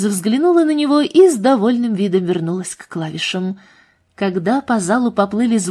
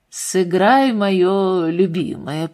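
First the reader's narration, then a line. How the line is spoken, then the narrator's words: Low requesting voice. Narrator (Russian): попросил Эдвард Кавендиш своим низким голосом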